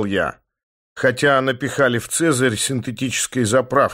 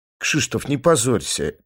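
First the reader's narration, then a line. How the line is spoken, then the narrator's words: Quiet. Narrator (Russian): тихо сказала Марта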